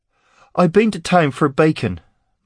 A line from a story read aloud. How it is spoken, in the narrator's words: Mott blurted